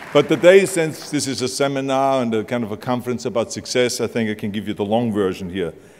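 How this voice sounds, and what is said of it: Austrian accent. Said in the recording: “this charming Austrian accent”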